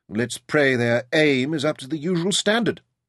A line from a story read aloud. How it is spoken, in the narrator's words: David remarked dryly